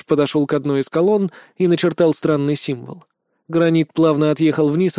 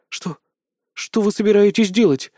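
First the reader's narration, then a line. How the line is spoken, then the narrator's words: Frightened whisper. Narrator (Russian): испуганно прошептала Пё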